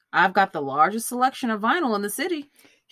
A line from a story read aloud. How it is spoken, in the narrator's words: he said cheerfully